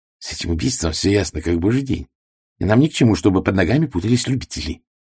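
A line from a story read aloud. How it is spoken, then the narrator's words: Gruff mutter. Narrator (Russian): буркнул Реглан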